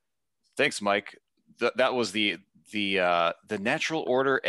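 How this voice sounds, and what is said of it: Usual voice. Nothing is said of it.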